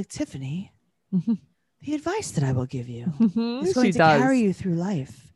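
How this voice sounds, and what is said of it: Proper, wise old-woman voice. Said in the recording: “talks like a very wise old tree ... Like an old owl ... She's very proper.”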